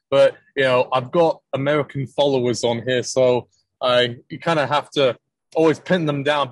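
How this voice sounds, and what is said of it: Speaker's natural British-leaning accent. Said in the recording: “is that your normal accent that you're speaking with? ... Yep, that's the way I talk. I'm not faking it.”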